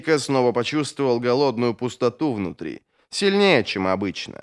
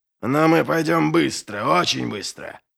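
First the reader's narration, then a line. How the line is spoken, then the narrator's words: Growled. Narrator (Russian): прорычал Доу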